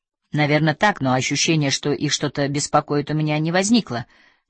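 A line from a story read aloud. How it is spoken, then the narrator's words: Plain. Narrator (Russian): сказал Мартинсон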